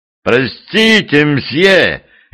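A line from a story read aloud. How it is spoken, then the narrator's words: Overly loud call. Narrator (Russian): излишне громко окликнул он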